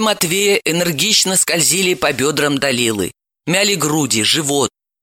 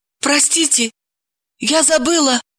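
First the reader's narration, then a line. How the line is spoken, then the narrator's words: Timid. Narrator (Russian): Сходу начала она робко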